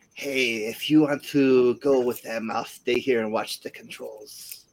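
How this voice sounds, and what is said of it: Groggy, drunk-sounding character voice. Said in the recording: “You sound drunk.”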